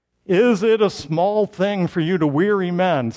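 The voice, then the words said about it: Deep official authoritative baritone voice. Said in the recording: “doing my baritone voice to sound very official and authoritative.”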